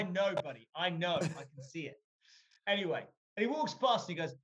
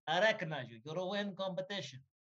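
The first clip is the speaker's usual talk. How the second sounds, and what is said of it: Put-on Russian accent. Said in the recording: “that accent is unreal ... have they got another guy on the show? ... They got another Russian guy.”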